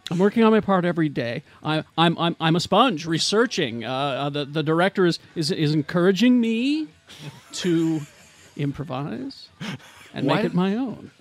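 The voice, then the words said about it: Imitates another person's voice. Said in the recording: “this would be a terrible impression... That's pretty good... That was pretty good... That was terrible”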